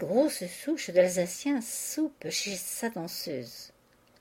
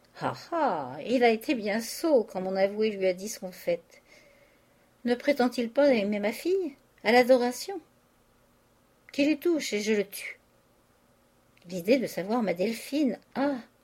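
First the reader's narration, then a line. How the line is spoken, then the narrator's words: Sighing. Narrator (French): Il soupira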